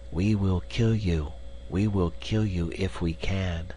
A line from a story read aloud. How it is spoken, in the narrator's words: the distant whisper